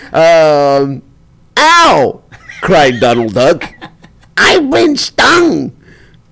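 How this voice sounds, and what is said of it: Old Jewish woman voice. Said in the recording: “I sound like an old Jewish woman”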